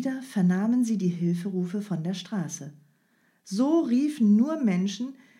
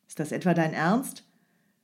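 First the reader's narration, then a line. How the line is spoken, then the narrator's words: Angry snapping. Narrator (German): Strogoff fuhr den Mann wütend an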